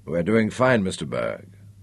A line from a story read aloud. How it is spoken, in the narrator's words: he assured Nicholas quietly